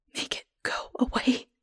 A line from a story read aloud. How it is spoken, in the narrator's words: whisper